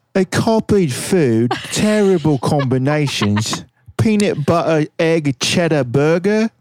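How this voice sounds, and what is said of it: Put-on British accent. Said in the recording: “in my best British accent.”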